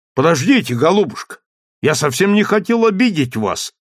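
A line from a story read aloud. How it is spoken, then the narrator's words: Young man's exclamation. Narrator (Russian): воскликнул молодой человек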